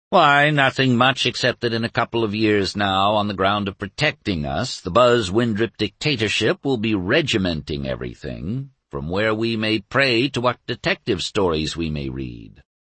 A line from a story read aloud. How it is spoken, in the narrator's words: Blandly he said